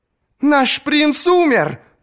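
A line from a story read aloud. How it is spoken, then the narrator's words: Woman shrieking from behind. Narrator (Russian): завизжала позади какая-то женщина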